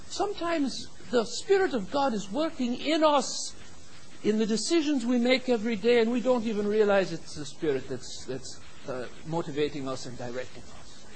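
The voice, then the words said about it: Unusual accent, not Minnesotan. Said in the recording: “there's something strange about that man's accent. He does not sound like a man from Minnesota.”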